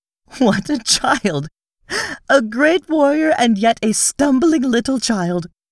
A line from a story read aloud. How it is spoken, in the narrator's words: with an odd little laugh, she cried